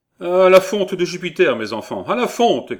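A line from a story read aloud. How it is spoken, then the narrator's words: Shouted from doorway. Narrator (French): cria-t-il du seuil de la porte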